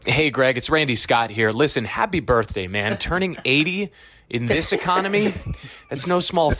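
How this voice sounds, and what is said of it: Usual voice. Nothing is said of it.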